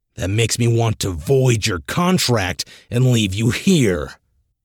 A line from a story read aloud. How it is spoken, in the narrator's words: let out a growl